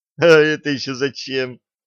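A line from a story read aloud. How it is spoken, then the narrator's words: Laughing. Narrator (Russian): рассмеялась Алиса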